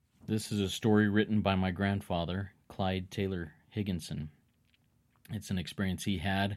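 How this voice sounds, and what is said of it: Usual voice. Nothing is said of it.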